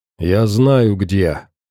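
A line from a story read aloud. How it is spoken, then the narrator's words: Grumbled. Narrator (Russian): пробурчал Морф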